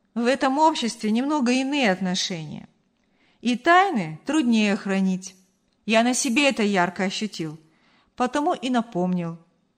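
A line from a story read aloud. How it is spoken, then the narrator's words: Conciliatory explanation. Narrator (Russian): примирительным тоном пояснил Артур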